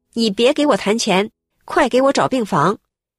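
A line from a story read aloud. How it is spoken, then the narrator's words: Loud, urgent. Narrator (Chinese): 这个病人的家属马上大声地说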